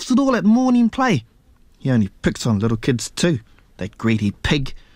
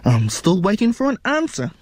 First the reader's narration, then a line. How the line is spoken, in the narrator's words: his mother said impatiently